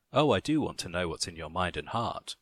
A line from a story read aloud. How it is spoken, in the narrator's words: she said